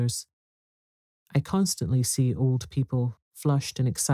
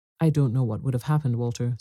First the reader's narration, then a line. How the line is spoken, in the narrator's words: said my mother